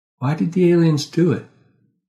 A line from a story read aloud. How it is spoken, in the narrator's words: I sighed